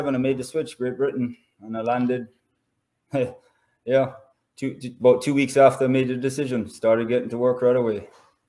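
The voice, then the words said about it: Jamaican accent. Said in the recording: “you've obviously still got the Jamaican accent ... my accent has come back a little bit stronger”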